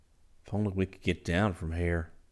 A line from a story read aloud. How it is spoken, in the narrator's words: said urgently